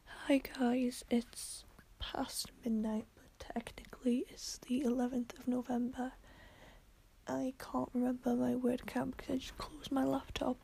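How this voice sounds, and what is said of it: Weak, strained, tired voice. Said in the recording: “I'm sorry if my voice is gone, it's because it's so late and I'm so tired”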